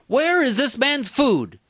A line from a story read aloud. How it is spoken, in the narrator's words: shouted temperamentally